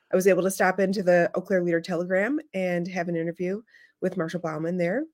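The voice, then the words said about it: Slightly hoarse voice. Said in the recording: “you can hear I'm a little hoarse because all I do is talk on the phone”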